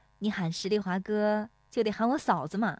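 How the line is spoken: Smiling, cheerful. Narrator (Chinese): 乔红梅 笑盈盈地说

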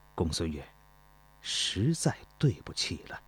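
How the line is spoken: Low voice. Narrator (Chinese): 钟离春低声说道

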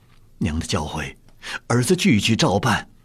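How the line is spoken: Tearful, choked voice. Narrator (Chinese): 岳钟琪一边流泪，哽咽着嗓子说道

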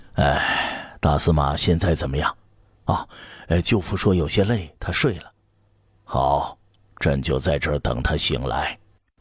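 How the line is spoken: Long sigh. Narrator (Chinese): 刘彻长叹一声

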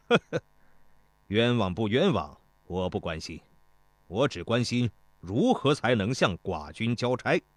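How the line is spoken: Laughing. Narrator (Chinese): 始皇大夫笑道

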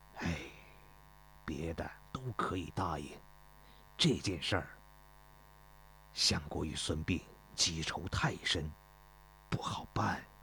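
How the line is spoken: Sighing. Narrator (Chinese): 公孙越叹了口气说

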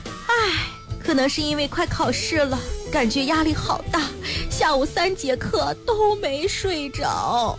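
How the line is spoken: Sighing. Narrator (Chinese): 小王叹了一口气说

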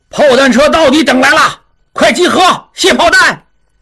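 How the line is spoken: Loud shout. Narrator (Chinese): 金勇大声叫道

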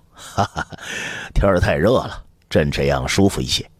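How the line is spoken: Hurried laugh. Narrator (Chinese): 他 忙笑道

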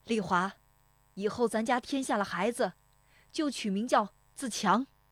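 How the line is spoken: Father calling out. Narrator (Chinese): 父亲对着堂屋喊了一声

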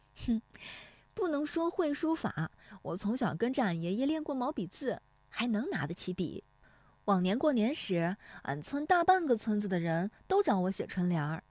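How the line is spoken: Laughing. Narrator (Chinese): 乔红梅笑说

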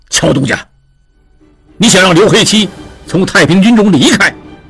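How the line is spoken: Sudden anger. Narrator (Chinese): 刘黑七勃然变色，怒道

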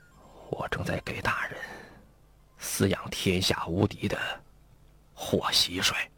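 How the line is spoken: Hushed voice. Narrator (Chinese): 来师爷 压低了声音说

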